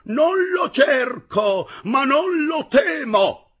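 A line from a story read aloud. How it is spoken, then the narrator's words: Heroic ringing reply. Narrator (Italian): rispose con tuono veramente eroico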